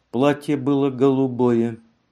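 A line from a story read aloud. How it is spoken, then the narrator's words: Calm, schoolgirl-like recitation. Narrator (Russian): Вдруг в тишине прозвучал голос Ивонны Мансин, которая спокойно, как ученица в школе, произнесла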